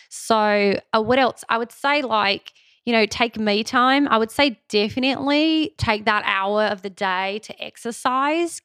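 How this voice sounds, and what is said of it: Put-on Australian accent. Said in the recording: “I'm talking in an Australian accent now that I've started. I can't really stop.”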